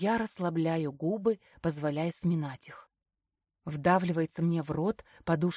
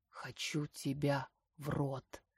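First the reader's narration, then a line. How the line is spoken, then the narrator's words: Low confident voice. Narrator (Russian): низким голосом уверенно сообщает мне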